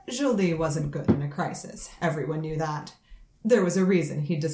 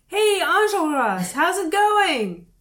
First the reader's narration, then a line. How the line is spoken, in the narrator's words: shout